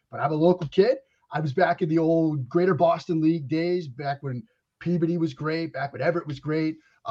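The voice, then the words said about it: Boston accent. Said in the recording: “the Boston accent that I still have ... I still, Kyrie, have the Boston accent ... Now you can hear it. Speaks for itself.”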